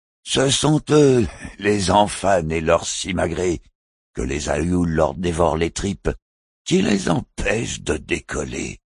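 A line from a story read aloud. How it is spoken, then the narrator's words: Sad smiling conclusion. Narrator (French): avait conclu Alain Jabran en souriant tristement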